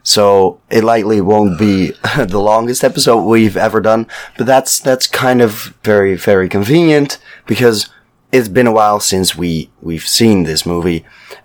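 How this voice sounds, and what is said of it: Sick, strained voice. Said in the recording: “as you may hear, by which I mean as you obviously can tell, I fell ill. My voice is not what it used to be.”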